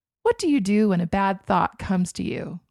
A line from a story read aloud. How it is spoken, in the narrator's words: asked